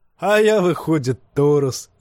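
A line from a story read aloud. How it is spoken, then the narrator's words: Laughing singer. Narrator (Russian): засмеялся певец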